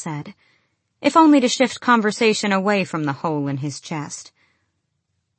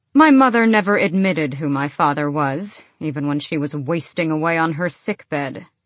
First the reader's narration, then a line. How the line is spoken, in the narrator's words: Adian said flatly